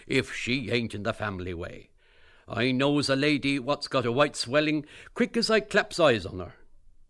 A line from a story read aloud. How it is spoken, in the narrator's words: cried Costello